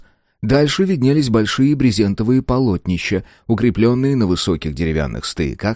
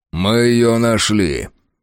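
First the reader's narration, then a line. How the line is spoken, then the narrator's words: Grim announcement. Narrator (Russian): мрачно объявил Фрейзер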